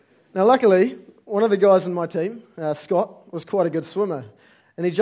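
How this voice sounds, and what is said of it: Usual voice. Nothing is said of it.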